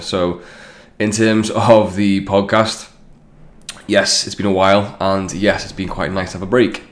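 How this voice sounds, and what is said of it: Stuffy, congested voice. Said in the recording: “as you can tell, yes, I've got a cold”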